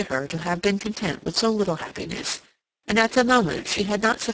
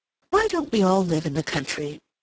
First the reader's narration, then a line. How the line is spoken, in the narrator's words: exclaimed Mrs